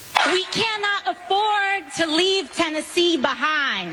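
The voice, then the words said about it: Slight put-on Southern accent. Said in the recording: “she adopted a little bit of a southern accent”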